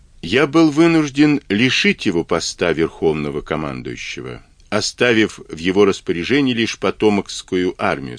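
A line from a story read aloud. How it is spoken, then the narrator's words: Plain. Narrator (Russian): сказал Авраам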